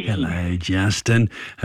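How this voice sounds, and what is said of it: Old grandpa character voice. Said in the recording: “You sound like a grandpa when you said that... it's my grandpa voice... a bit creepy”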